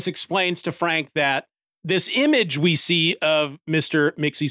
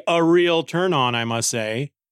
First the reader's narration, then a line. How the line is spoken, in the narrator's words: Lois says sarcastically